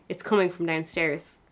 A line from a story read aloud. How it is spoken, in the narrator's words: Frank laugh and reply